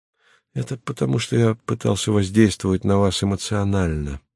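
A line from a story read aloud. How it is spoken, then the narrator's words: Sad. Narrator (Russian): грустно сказал Леонид Андреевич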